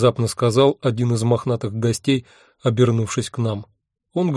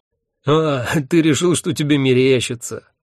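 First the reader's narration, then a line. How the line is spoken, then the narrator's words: Laughing. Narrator (Russian): рассмеялся Хехельф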